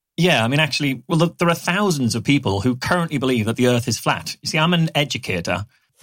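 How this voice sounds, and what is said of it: British Newcastle accent. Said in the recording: “he has a British accent ... from Newcastle”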